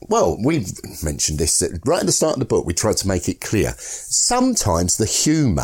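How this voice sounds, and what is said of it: Usual voice. Nothing is said of it.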